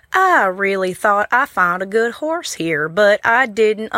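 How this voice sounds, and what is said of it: Put-on Southern US accent. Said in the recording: “I am wanting to try out my southern accent.”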